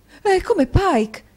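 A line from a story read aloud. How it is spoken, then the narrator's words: Exclamation. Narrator (Italian): esclamò la signora Nickleby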